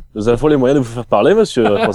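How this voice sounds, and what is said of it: Put-on German accent. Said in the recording (French): “l'accent allemand”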